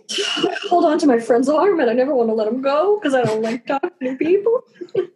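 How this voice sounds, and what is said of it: Imitates another person's voice. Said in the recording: “That's my Phil impression also... I've been practicing... It was very good.”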